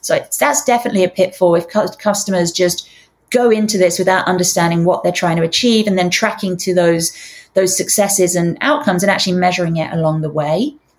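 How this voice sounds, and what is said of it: Strained voice, losing her voice. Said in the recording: “losing my voice”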